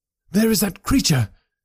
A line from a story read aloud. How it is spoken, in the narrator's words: cried Grant Munro